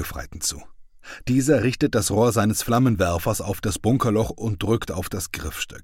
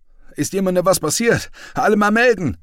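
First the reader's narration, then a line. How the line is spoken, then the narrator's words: Leader calling to men. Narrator (German): ruft der Gruppenführer seinen Männern zu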